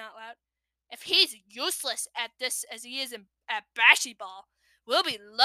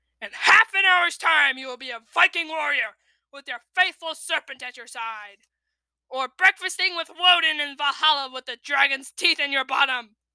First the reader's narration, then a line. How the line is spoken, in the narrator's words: screamed Gobber with horrible enthusiasm